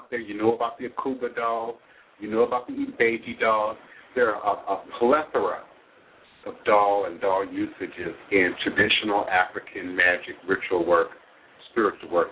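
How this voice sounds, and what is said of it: Slight Midwestern American accent. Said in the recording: “a little bit of that Midwestern accent”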